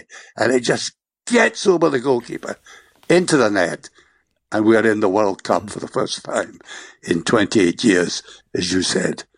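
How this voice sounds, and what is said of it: Strained, fading voice. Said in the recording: “My voice is going.”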